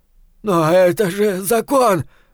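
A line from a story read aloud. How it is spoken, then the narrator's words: Sudden furious shout. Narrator (Russian): вдруг свирепея в ответ закричал тот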